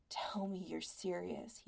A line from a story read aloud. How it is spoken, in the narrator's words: he murmured